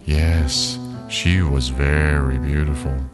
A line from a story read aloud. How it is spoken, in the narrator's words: the old woman said sadly